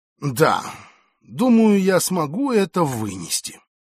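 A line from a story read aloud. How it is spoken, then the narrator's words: Heavy sighing conclusion. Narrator (Russian): Дипломат, тяжко вздохнув, заключает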